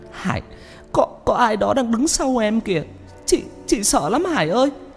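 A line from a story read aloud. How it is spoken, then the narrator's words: Tearful, frightened. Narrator (Vietnamese): Chị nói trong nước mắt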